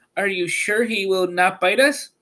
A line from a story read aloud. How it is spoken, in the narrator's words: the Queen of the Mice asked in a timid voice